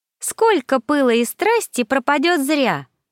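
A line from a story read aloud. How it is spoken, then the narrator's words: Cheerful, smiling. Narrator (Russian): весело улыбнулся Аизид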